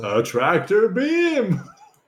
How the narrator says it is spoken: He yells

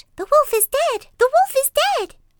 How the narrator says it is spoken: When the seven kids saw what had happened, they cried out

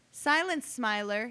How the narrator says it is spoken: he yelled

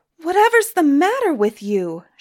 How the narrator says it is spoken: shouted Suni

